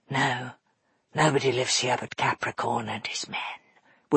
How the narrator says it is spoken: whispered Dustfinger

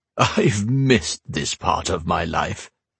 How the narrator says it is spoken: he said

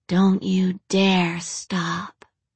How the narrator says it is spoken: Rachel breathed into Alex's ear

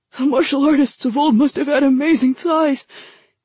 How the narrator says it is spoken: Kitai gasped

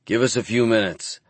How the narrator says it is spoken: I growl at them

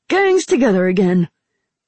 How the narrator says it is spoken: Ramsa said happily

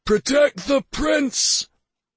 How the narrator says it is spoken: Karvik bellowed

